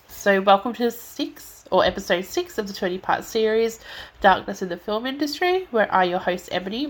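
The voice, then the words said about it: Stuffy, congested voice. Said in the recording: “if I sound a bit stuffy or lose my breath in this episode ... I'm getting really stuffy”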